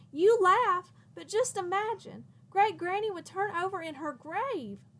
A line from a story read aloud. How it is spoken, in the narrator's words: exclaimed